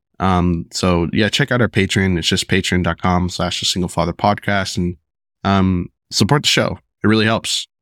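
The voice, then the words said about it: Hoarse, sick-sounding voice. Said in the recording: “sorry for my voice ... my daughter got me sick and then I had strep”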